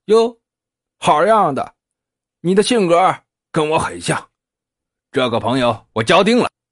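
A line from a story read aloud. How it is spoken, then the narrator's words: Smiling cheerfully. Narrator (Chinese): 魏子杰笑眯眯的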